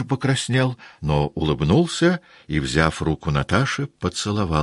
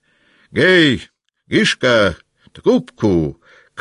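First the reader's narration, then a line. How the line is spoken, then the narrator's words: Hoarse shout. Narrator (Russian): крикнул хриплый голос Васьки Денисова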